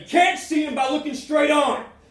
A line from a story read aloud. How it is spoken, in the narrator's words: yell back